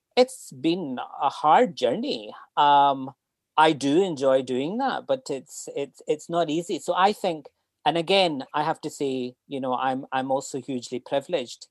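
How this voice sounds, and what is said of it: Scottish accent. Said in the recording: “you have this Scottish accent”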